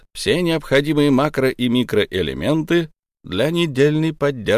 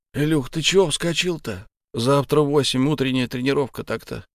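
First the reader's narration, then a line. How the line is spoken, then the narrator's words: Sleepy mumble. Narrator (Russian): сонно пробормотал Саня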